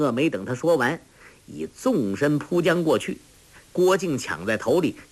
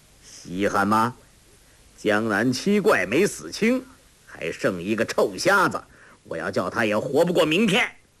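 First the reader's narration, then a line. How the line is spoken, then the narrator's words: Sneering. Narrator (Chinese): 黄药师冷笑道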